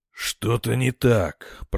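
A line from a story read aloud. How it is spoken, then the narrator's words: Captain muttering. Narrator (Russian): пробормотал капитан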